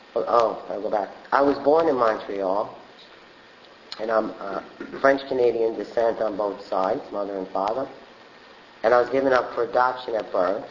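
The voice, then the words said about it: Brooklyn accent. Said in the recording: “raised in Brooklyn by an Italian family. And that's where the Brooklyn accent comes from.”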